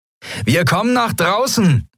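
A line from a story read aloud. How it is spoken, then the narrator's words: Calling out to pirates. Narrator (German): rief Sephiron den Yadi-Piraten zu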